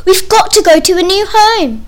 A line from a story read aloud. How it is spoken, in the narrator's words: there was shouting and screaming about where to go